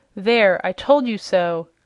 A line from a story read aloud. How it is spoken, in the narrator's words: cried the voice angrily